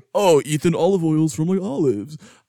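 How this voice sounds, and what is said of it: Imitates another person's voice. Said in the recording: “doing your voice”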